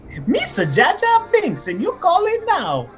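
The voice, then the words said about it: Bad Jar Jar Binks impression. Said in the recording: “I know, you do a great Jar Jar Binks. ... That was a really bad one. ... That was a Jamaican child. ... That was bad.”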